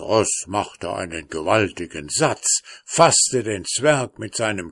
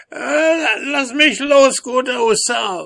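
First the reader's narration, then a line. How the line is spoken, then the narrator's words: Called out. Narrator (German): rief er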